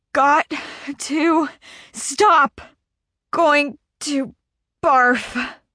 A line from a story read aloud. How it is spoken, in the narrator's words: I wheeze